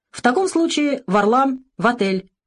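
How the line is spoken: Cheerful command. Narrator (Russian): весело скомандовал Алик

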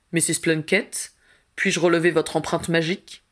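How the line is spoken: Plain. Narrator (French): demanda-t-il

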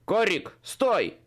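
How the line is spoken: Tall man barking. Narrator (Russian): рявкнул высокий мужчина ситхи

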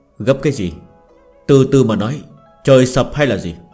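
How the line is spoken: Cold. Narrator (Vietnamese): Thiệu Bình Ba lạnh lùng nói

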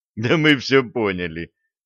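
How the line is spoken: Loud laughter. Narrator (Russian): расхохотался Блад

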